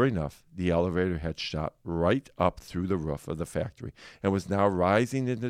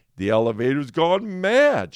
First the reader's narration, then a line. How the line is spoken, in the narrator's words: shouted Grandpa Joe